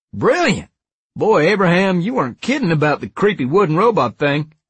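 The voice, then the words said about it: Strong Southern drawl. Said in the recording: “he asked in his strong southern drawl.”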